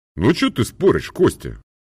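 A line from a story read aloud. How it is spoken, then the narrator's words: Angry. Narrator (Russian): сердито говорил Троицкий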